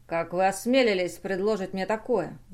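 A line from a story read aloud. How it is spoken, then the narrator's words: Furious roar. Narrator (Russian): взревел капитан, побелели от гнева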